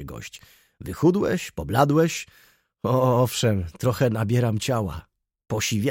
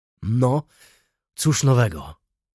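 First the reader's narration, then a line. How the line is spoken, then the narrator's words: Calmer tone. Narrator (Polish): rzekł spokojniejszym tonem pan Ignacy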